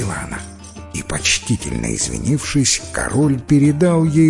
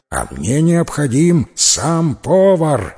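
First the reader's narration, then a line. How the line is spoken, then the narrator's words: King's shout. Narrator (Russian): закричал король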